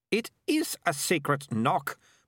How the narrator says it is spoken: Melissa snapped

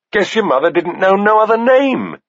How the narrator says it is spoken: Bennis said, cackling

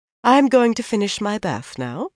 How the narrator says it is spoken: she said calmly

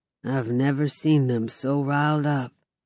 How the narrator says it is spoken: Creighton murmurs

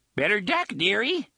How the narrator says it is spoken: he cried, and voiced a series of shrill, hysterical giggles

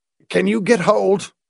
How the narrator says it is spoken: grunted

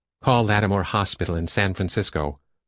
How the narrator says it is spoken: Myra instructed in her crisp, vigilantly authoritative voice

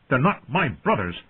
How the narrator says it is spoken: John snapped

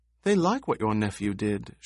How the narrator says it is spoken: she said

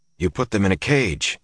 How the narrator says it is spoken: he said

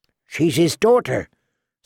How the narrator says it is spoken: Sam said feebly

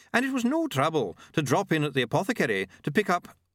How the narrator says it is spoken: he began, smiling brightly

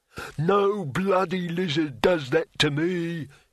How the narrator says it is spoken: he roared

